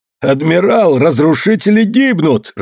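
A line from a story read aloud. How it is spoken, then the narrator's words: Joyful shout. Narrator (Russian): радостно закричал Асима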